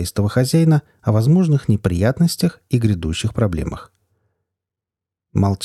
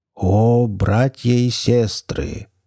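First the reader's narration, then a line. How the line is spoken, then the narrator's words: Trained, charming, deep voice. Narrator (Russian): хорошо поставленным, чарующим, глубоким голосом произнес маг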